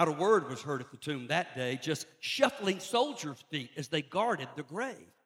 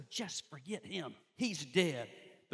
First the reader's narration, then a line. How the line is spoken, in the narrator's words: All hell seemed to whisper